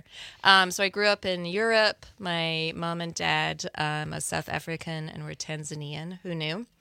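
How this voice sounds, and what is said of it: Slight mixed non-American accent. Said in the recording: “just a little titch of the accent ... my accent can be all over the place. So sometimes it sounds more Midwest ... sometimes it sounds more New York, or just like bits and pieces”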